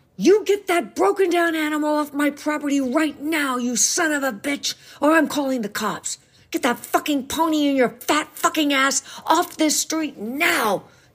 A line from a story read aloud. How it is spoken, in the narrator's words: yelled her father in his fury